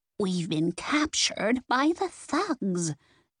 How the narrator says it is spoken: Nance said in a loud whisper

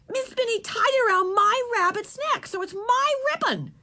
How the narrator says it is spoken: she said, her voice rising

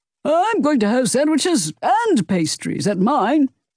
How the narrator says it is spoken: Mario yelled

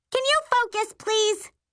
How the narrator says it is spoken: Rose snaps from the dock

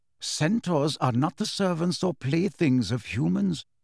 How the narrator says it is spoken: said quietly

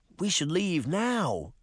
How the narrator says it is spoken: she pleaded

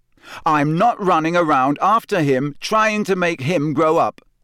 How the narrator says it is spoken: Harry said so loudly

